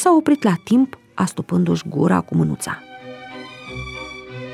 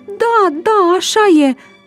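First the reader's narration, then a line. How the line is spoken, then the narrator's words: Joyful shout. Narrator (Romanian): Brusc înveselită, Măriuca strigând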